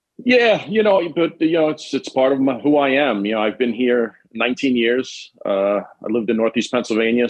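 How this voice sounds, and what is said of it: New York accent. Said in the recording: “accent. I already feel it. You're sick of people saying the New York accent.”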